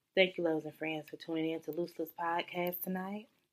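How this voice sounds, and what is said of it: Smooth, sultry late-night radio voice. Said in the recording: “put on my quiet storm voice ... The quiet storm.”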